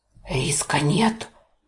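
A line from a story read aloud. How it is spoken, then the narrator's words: Muffled creature bark. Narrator (Russian): Глухо рявкнуло создание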